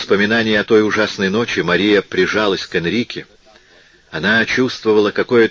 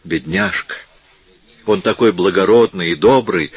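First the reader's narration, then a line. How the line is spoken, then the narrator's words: Exclaiming. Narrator (Russian): воскликнула Энрика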